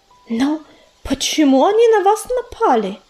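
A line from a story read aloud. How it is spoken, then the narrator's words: Puzzled exclamation. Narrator (Russian): непонимающе воскликнула речушка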